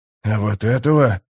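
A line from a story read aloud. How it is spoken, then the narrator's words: Shocked old man's mutter. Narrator (Russian): потрясенно пробормотал старик в татуировках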